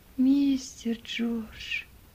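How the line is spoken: Barely audible whisper. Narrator (Russian): Чуть слышно прошептал Том

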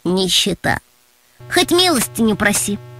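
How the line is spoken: Gloomy remark. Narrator (Russian): Мрачно заметил Антон

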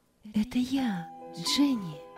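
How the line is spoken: Quiet. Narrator (Russian): тихо сказала Роза

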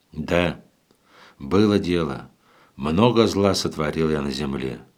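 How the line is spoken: Heavy sigh. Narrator (Russian): сказал Иван и тяжело вздохнул

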